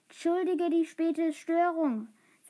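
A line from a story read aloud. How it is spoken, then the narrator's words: Plain. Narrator (German): sagte Franz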